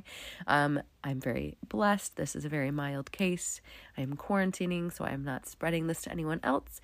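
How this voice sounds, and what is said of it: Voice sounds different from illness. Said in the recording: “I do, in fact, have a confirmed case of the COVID ... if my voice sounds different to you, that is why.”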